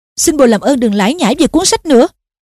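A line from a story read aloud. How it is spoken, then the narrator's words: Irritated snap. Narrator (Vietnamese): Harry gắt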